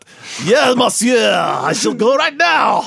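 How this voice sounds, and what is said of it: Exaggerated cartoon French accent. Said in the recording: “speaks English with a over-exaggerated French accent ... It speaks English with a cartoon French accent.”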